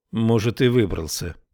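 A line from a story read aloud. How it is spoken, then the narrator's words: Gloomy. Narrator (Russian): проговорила Тесла мрачно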